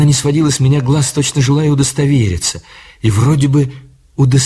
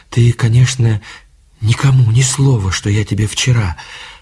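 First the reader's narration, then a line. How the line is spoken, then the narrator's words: Hurried, quiet. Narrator (Russian): торопливо заговорила она тихим голосом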